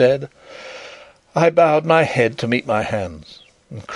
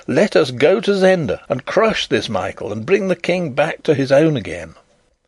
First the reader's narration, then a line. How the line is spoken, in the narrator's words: I cried